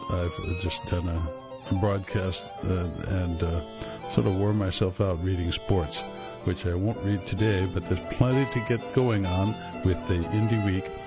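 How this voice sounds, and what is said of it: Slightly hoarse voice. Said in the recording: “you'll forgive my little bit of hoarseness.”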